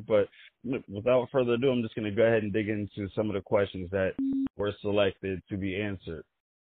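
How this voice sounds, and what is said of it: Raspy, hoarse voice. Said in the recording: “I hope my voice is not too raspy”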